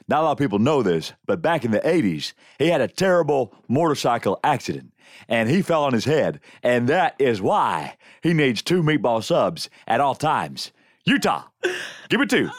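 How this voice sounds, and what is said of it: Imitates another person's voice. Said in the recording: “let me hear your Gary Busey ... my favorite impression”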